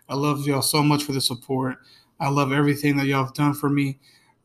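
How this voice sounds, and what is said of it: Sick voice, fading and flat. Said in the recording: “I know I don't sound very excited ... I just got like a little sick. My voice is going out a little bit”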